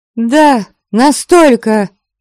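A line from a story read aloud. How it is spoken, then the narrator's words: Furious ringing exclamation. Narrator (Russian): Воскликнула я, даже не пытаясь приглушить ярость, от которой так и зазвенел мой голос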